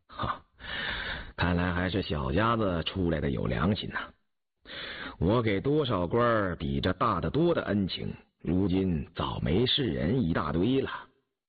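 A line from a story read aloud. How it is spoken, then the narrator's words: Sighing. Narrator (Chinese): 允嗣……因点头叹道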